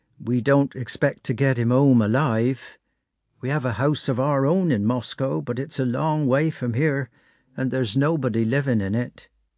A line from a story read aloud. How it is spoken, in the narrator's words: said he with a sigh